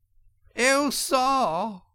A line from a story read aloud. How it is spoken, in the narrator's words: cried the toad, crying afresh